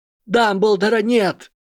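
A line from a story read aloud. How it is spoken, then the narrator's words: Shouted. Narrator (Russian): закричал Гарри Поттер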